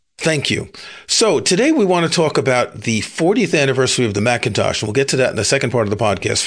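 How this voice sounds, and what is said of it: Rough, hoarse voice from a cold. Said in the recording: “You can tell by my voice. I've had the worst cold ever for the past week... my rough voice”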